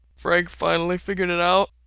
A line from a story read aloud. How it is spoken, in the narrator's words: Otter asks around a yawn